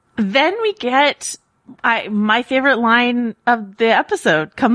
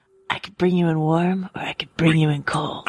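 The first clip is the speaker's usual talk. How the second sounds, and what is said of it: Pedro Pascal via Clint Eastwood impression. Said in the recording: “Look at you breaking out the impressions. That's very good. ... A very nice Pedro Pascal by way of Clint Eastwood.”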